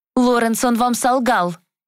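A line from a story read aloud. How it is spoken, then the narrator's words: Sudden shout. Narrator (Russian): выкрикнула вдруг Глэдис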